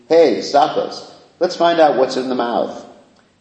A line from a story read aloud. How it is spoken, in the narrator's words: the coward boys began to laugh loudly while speaking